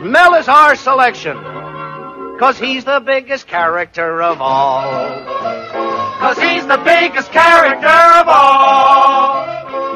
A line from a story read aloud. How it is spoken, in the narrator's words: Producers hollered